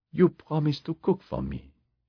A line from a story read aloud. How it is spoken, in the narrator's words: she said